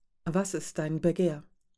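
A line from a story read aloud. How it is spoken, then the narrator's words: Plain. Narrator (German): fragte Rasch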